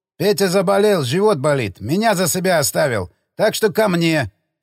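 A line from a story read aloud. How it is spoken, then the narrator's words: Laughing. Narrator (Russian): засмеялся торговец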